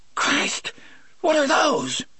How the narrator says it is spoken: Dean asked in a shrill, scared voice

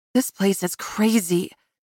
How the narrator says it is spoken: whispered

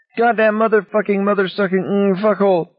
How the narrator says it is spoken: screamed

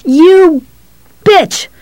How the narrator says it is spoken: Cynthia shouted at Johnny

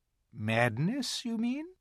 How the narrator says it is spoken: said the professor quite coolly

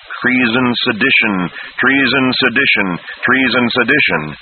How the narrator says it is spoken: this clock called out

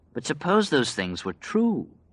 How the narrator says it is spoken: Glenn said gently

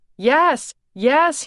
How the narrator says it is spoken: shouted into the phone, speaking excellent Oxford English

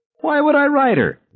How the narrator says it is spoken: he asked wildly

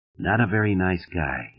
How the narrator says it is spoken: he muttered

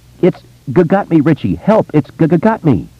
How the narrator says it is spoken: Bill cried

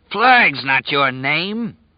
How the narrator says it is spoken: Ralph roared

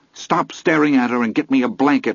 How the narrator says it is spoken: I snapped at him

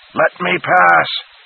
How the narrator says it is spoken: Flag roared

